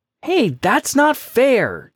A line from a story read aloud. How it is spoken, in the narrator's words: Jake exclaimed